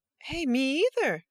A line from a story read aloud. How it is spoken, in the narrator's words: cried a chorus of voices